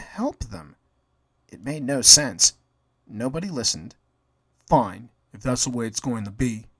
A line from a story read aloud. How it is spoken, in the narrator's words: Jerry muttered